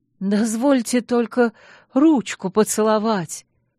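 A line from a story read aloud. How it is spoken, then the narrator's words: Hoarse pleading. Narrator (Russian): проговорил охрипший поклонник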